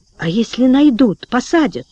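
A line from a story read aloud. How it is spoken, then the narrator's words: Whispered question. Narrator (Russian): шепотом спросил Толик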